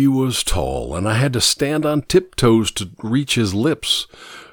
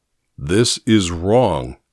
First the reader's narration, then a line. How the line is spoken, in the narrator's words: he said firmly